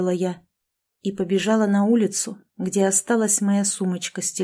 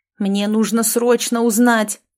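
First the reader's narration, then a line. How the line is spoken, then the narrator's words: Frantic yelling. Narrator (Russian): вопил я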